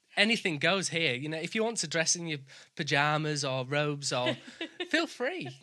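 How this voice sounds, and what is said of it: Northern English accent. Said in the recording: “my accent because being from the north of England, I can sometimes come across as common ... my accent”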